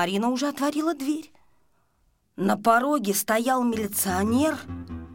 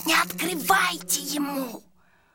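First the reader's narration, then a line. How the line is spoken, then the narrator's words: Hissed. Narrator (Russian): Сашка зашипел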